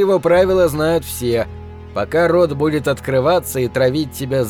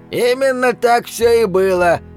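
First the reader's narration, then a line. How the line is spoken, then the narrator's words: Old man's distant shout. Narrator (Russian): выкрикнет откуда-то дед Костя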